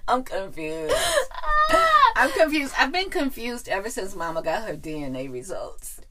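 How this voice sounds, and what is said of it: Valley girl voice. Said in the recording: “slipping in through the uptown girl voice to the valley girl voice”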